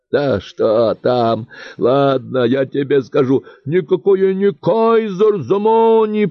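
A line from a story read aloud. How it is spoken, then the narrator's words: Creature yelling. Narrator (Russian): продолжало вопить существо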